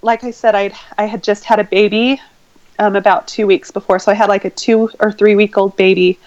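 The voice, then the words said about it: Emotional, shaky voice. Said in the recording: “I get emotional, my voice starts kind of shaking.”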